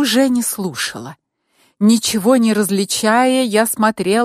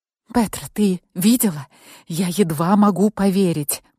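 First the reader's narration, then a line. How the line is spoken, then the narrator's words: Whispering into phone. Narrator (Russian): прошептала я в трубку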